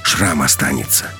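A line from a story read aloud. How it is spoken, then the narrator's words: Quiet. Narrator (Russian): тихо сказала Алиса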